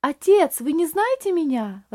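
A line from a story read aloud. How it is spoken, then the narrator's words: Exclaiming, struggling for composure. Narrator (Russian): воскликнул Рейли, с трудом беря себя в руки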